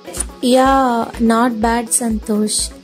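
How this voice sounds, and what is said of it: Dull, flat voice. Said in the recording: “in a dull voice”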